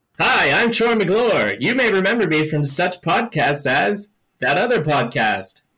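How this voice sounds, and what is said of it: Troy McClure cartoon character impression. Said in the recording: “doing a Troy McClure impression. Very good. Very good indeed.”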